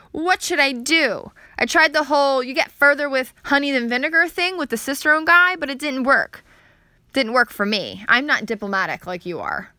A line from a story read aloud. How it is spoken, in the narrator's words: whined over the phone